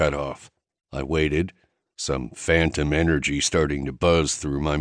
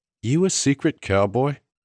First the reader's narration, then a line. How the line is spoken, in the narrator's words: I chuckled